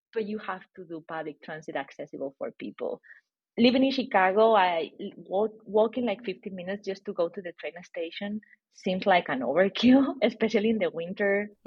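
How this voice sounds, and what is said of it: Spanish accent. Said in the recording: “Probably many people can tell that I have a Spanish accent.”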